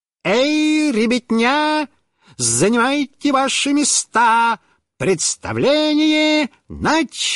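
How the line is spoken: Exaggerated circus voice. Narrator (Russian): сказал нарочным цирковым голосом

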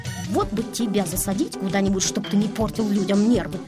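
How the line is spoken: Grumbling. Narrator (Russian): проворчал дядя Федя

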